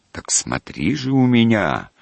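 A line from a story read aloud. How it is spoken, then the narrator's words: Menacing shout, losing control. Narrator (Russian): грозно крикнул Жданов, начиная терять самообладание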